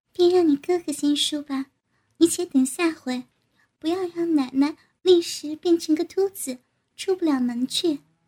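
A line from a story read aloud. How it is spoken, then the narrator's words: Laughing. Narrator (Chinese): 鬼话笑道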